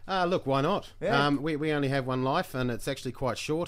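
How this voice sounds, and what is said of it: New Zealand accent. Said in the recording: “is that a Kiwi accent I detect there?”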